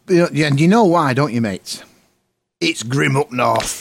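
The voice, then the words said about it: Put-on Yorkshire accent. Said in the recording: “That was my Yorkshire impression.”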